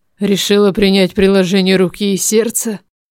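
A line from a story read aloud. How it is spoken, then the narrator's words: Gloomy question. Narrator (Russian): спросил мрачно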